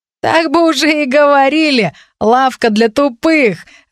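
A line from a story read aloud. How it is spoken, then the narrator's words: Young men laughing. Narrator (Russian): рассмеялись парни рядом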